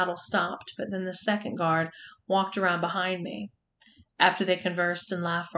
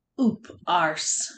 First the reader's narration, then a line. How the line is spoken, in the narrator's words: snarled